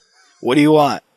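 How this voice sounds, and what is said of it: Simple impression of co-host, with cold. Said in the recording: “through your cold and everything, that's a pretty good impression of me ... That is very simple, but it's a pretty good impression.”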